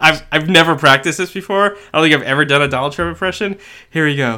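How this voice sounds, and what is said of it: Usual voice. Nothing is said of it.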